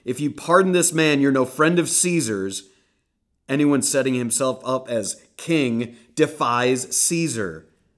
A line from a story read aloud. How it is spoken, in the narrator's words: the Jews shouted him down